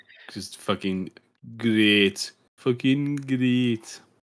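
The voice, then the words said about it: Bad put-on accent, unclear which. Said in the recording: “That's my bad accent... I'm not even quite sure what accent that was supposed to be”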